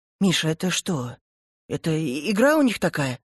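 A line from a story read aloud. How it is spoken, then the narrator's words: Bewildered mother. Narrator (Russian): растерянным голосом говорит мама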